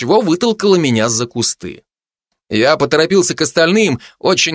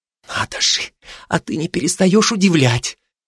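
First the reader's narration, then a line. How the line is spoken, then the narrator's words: Smiling whisper. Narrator (Russian): та заулыбалась и прошептала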